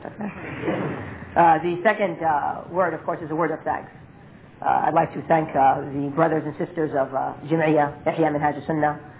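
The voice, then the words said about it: Hoarse, unclear voice from a cold. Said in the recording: “my throat has some sort of cold in it, so my voice might not be distinct as normally it is ... That's difficulty because of my throat, not because of my American accent.”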